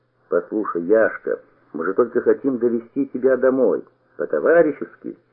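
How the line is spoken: Firm and calm. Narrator (Russian): сказал я твердо и спокойно

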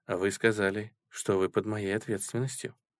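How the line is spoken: Soft, gentle. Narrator (Russian): мягко сказала Раиса

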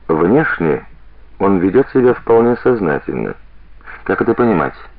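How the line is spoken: Meaningful tone. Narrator (Russian): многозначительным тоном произносит

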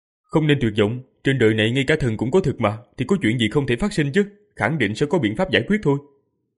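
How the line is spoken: Loud and comforting. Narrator (Vietnamese): Diệp Phàm lớn tiếng an ủi và khuyên giải mọi người, nói

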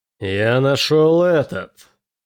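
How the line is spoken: Angry man. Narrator (Russian): сказал мужик, злобно глядя на Келина

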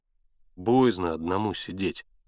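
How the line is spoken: Quiet, lanky man. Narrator (Russian): тихо сказал жердяй

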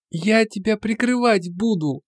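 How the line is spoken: Voice-cracked squeak. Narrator (Russian): Пискнул, похоже, потерял голос

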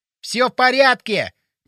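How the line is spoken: Shouted. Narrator (Russian): крикнул он

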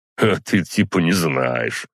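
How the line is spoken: Smirking snort. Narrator (Russian): хмыкнул водитель

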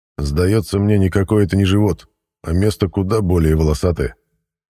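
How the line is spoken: Gloomy. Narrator (Russian): мрачно подытожил

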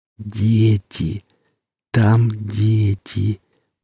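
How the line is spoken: Calm, through eerie smile. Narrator (Russian): проговорила женщина спокойно, продолжая растягивать губы в жуткой улыбке

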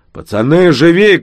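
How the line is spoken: Breathless shout. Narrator (Russian): крикнул он, задыхаясь

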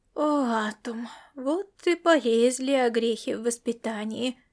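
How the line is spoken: Silent inner groan. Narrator (Russian): мысленно простонала Тория

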